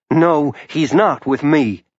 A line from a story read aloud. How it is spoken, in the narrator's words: Charlie snapped